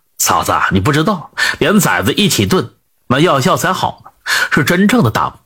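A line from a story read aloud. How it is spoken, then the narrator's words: Laughing. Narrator (Chinese): 阿黑 笑着就说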